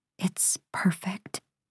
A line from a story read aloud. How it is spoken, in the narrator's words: I whisper